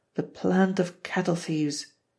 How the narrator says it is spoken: Fay Maguire muttered

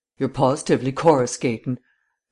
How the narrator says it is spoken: Vance exclaimed

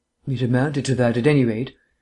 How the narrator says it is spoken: replied Vance

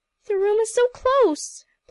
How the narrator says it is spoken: pleaded Emily

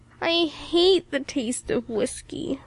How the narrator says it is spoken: moaned Ilse

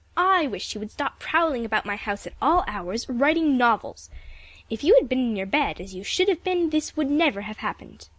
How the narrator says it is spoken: snapped Aunt Ruth

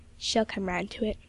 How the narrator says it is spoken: whispered Miss Royal

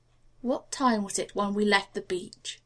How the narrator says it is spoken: he asked in a low, tense voice

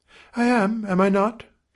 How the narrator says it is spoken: said eagerly

